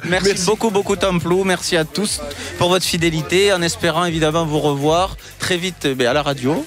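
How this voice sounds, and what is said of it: Sing-song southern French accent. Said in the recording (French): “son petit accent ... un petit peu plus du sud ... Toulouse, bien sûr, du sud-ouest de la France, l'Occitanie, et un accent chantant”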